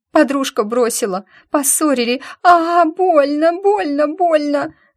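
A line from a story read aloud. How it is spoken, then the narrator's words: Wailing in pain. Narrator (Russian): Завопила Ди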